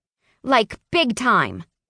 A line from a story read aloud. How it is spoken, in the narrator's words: I snapped